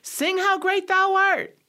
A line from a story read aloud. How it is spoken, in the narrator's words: shouted